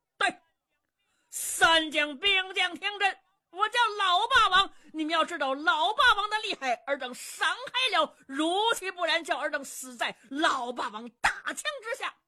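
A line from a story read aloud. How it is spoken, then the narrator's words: Booming battle shout. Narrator (Chinese): 姚七斗丹田，高声喝喊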